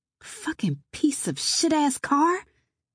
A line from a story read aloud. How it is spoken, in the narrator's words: I hissed